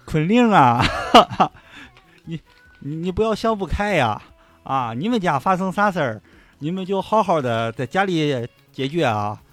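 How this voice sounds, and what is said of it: Imitated Shandong dialect accent. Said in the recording (Chinese): “就是他就操一口那个山东话，就是那个《炊事班的故事》里面老高，也就是《武林外传》的老邢，记得吧？就他那个口音...我也我也我我也不太学上来”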